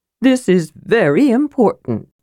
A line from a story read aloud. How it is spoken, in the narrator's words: said solemnly, breathing garlic from dinner into the mage's face